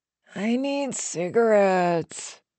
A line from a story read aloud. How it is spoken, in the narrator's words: Marion moaned